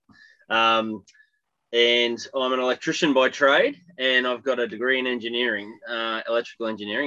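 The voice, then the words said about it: Australian accent. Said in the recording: “I'm Australian, if you couldn't tell by the accent.”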